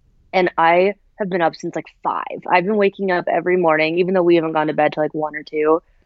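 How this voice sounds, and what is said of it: Sounds sick. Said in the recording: “You sound sick.”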